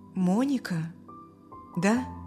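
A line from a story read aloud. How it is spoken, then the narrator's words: Uncertain. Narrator (Russian): неуверенно сказал отец Стивена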